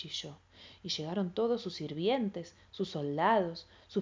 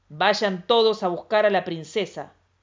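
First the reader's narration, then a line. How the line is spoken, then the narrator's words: Thunderous roar. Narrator (Spanish): rugió el emperador con voz de trueno y ojos de relámpago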